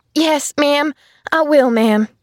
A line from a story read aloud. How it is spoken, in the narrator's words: she stammered